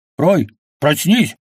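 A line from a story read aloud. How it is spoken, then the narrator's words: Barked order. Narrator (Russian): рявкнул он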